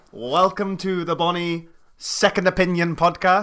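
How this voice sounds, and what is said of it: Put-on Scottish accent. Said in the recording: “I want to try my Scottish accent... the most Scottish accent that you can do”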